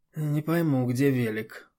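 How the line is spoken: Dry, brittle voice. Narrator (Russian): говорит Диана сухим, ломким голосом

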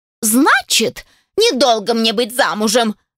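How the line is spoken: Blurted out. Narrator (Russian): выпалила она

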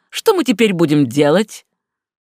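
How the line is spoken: Agitated trembling exclamation. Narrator (Russian): словно досадуя, что проговорился в присутствии Октава, слегка еще дрожа от волнения, Компардон похлопал в ладоши, воскликнув

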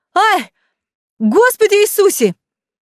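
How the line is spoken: Sudden yell. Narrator (Russian): вдруг заорал

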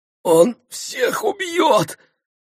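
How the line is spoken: Hoarse, spitting dirt. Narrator (Russian): прохрипел Генри, выплевывая землю

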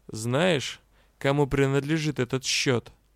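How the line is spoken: Calm question. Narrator (Russian): Спокойно, без злости спросил Риан

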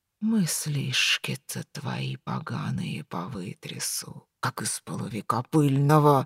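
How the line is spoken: Hissing threat. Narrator (Russian): Продолжала шипеть матушка

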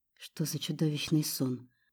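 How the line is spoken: Muttered. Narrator (Russian): пробормотал я

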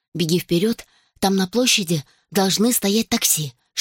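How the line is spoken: Mother whispering. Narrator (Russian): шепнула мама

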